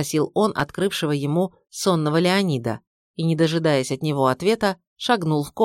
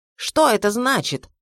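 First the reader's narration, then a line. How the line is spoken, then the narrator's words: Yelling. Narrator (Russian): заорал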